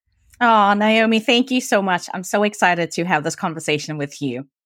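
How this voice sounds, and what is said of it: South African accent. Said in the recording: “my accent ... I'm originally from Cape Town, South Africa”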